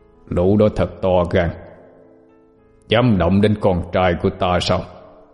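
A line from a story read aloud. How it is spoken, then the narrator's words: Growling. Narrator (Vietnamese): Tiếng gầm gừ vang lên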